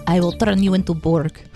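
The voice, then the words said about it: Put-on Russian accent. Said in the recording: “all the Borgs are Russian ... I'm just playing around with my accents”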